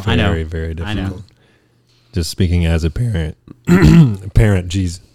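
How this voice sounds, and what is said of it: Choked-up, tearful speech. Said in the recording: “getting all choked up over there ... Getting all weepy over here”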